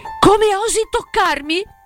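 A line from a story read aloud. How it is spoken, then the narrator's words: Stammering indignant exclamation. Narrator (Italian): esclamò Selvaggia, stupefatta e sdegnata al punto di balbettare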